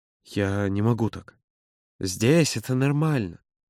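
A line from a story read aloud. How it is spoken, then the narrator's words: Soft. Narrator (Russian): мягко произнес Юра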